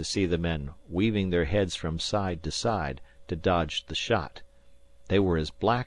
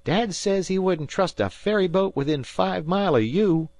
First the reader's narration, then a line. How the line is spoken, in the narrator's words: Dan howled cheerfully